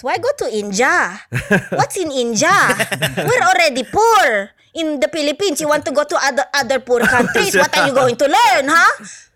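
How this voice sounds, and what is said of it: Put-on accent imitating a parent. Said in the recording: “when you just had that accent, I'm just like thinking about my mom now”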